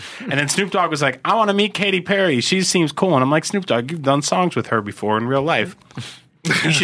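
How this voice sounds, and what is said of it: Usual voice. Nothing is said of it.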